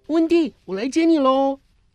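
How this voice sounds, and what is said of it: Soft, hushed calling voice. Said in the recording (Chinese): “小声地喊”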